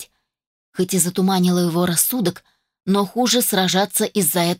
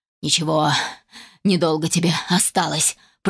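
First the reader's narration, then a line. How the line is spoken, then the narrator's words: Hissed. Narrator (Russian): прошипел Финис Монрой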